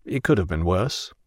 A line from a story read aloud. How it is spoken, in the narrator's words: we felt embarrassed, mumbled